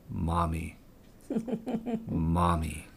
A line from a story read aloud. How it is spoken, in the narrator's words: in a deep, scratchy voice, with heavy accent on each syllable, he said